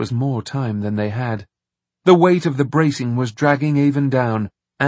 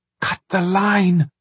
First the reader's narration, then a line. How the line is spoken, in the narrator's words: Avon hissed